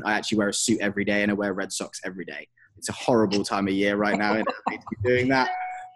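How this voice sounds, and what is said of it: English accent. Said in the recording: “I'm English and I have the accent”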